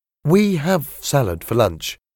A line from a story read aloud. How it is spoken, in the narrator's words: he said